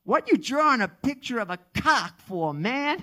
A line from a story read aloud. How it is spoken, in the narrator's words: exclaimed vehemently